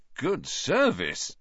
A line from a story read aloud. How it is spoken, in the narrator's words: said in an impressed voice